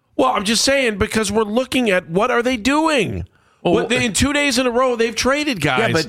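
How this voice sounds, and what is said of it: Agitated, panicked-sounding speech. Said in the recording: “you sound like you're panicked about that”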